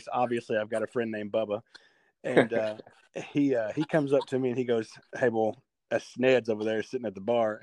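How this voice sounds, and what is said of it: Southern American accent. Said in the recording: “obviously you can hear it in my voice.”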